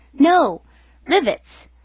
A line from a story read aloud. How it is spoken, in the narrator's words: exclaiming